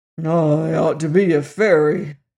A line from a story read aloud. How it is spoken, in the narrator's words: grumbled Jim